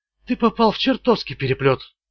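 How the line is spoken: Quiet. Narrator (Russian): тихо промолвила Джоди

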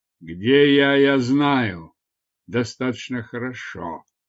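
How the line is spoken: Growled. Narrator (Russian): прорычал Дартарус

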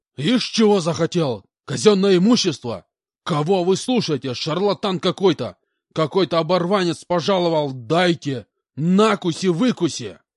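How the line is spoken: Shouted. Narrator (Russian): выкрикнул полкан

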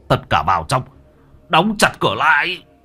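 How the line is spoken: Sharp shout. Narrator (Vietnamese): Thầy Phong quát lên một tiếng

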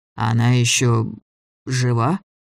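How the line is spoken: Hoarse voice. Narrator (Russian): спросил он сиплым голосом

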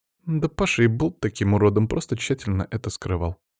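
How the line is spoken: Quiet interjection. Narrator (Russian): тихо вставила Лиза

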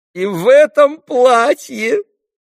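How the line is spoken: Blurted through laughter. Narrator (Russian): вырвалось у ней между смехом

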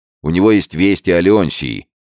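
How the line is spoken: Shout. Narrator (Russian): крикнул Алессандро

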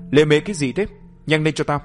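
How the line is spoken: Loud bark. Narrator (Vietnamese): Gã đàn ông đó lớn tiếng quát

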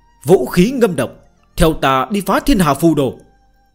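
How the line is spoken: Raised voice. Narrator (Vietnamese): Đế Thích Thiên Vương cao giọng nói

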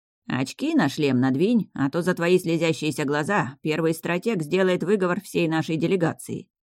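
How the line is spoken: Snorting. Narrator (Russian): фыркнул Басит

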